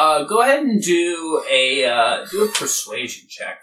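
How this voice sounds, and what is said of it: Usual voice. Nothing is said of it.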